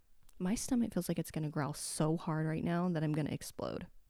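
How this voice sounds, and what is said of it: Rough morning voice with vocal fry. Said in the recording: “vocal fry ... I know it's in the morning, so my voice is a little jacked right now anyway”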